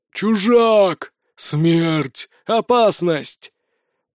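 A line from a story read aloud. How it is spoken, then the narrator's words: Howling, wheezing, creaking. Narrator (Russian): Они выли и хрипели, словно несмазанная телега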